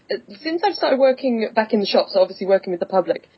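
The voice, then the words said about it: English London accent. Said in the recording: “what part of Australia are you from? ... people might mistake my English accent ... I'm from the town ... that everyone has this accent ... London.”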